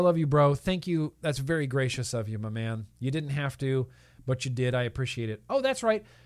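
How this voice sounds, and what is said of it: Usual voice. Nothing is said of it.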